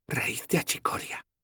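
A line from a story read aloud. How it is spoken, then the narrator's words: Whispering. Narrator (Spanish): susurró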